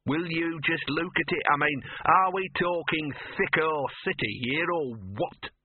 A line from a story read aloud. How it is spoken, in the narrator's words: sneered Gaspode